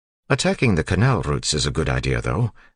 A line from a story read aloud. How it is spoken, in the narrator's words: Doxson said